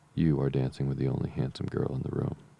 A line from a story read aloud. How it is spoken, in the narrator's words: said Mr